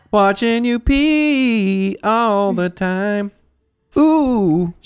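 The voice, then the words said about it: Soul singer impression. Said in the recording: “That's my Otis Redding impression. It's very good. ... No, it was excellent.”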